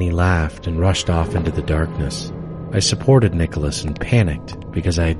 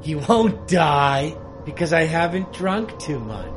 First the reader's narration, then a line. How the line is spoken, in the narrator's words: brightly smiled, and yelled